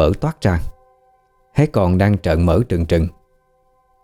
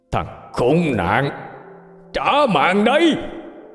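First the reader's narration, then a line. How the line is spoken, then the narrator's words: Man roaring. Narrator (Vietnamese): Người đàn ông gầm lên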